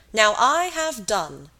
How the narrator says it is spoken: cried Captain Wentworth

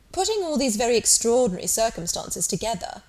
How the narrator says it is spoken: said Captain Wentworth

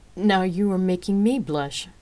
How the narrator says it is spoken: Rain added with a chuckle, uneasy at the admiration

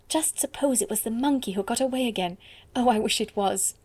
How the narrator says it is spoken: she whispered in pleased excitement

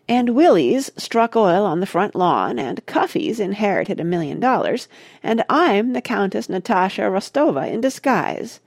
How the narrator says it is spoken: replied Mona sarcastically

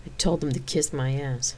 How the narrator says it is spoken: Xena muttered

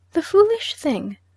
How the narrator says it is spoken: said my aunt Rachel, speaking warmly

